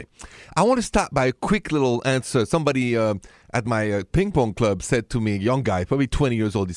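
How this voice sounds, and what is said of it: French accent. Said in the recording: “the accent is French. Français.”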